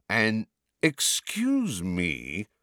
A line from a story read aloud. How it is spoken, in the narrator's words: said Malfoy in a sneering voice